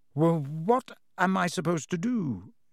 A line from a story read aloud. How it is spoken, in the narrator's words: he stammered